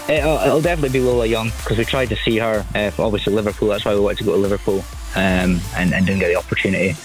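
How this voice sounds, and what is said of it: Scottish accent. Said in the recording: “I detect a Scottish accent, am I right?”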